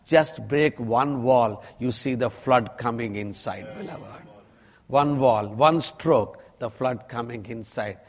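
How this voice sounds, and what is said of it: Strong Indian accent. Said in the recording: “God has given me a strong Indian accent.”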